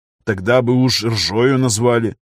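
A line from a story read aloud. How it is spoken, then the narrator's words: Wry snort. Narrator (Russian): хмыкнул Виктор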